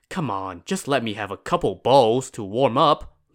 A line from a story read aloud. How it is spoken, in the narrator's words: Lin Chong pleaded